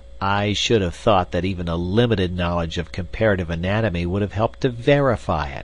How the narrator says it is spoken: said Summerlee bitterly

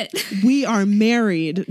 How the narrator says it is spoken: Jimin yells

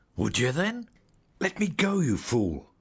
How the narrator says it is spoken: I gasped

